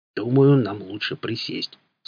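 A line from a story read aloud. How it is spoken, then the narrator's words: Perfectly calm voice. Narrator (Russian): сказал караул абсолютно спокойным голосом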